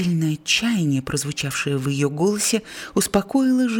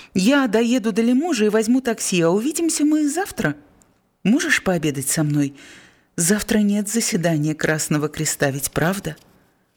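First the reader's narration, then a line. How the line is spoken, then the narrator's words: Very cheerful. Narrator (Russian): Он очень бодро сказал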